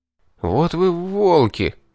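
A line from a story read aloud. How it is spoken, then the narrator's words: Stammering breath. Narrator (Russian): Запинаясь, выдохнул я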